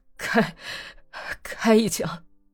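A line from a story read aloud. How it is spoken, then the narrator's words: Tearful stammering. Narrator (Chinese): 他连眼泪也没有擦，结结巴巴地对那个下了马的哥萨克说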